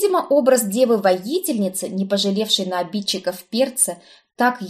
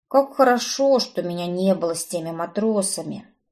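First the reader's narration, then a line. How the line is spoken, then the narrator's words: Gloomy muttering. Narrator (Russian): хмурое бормотание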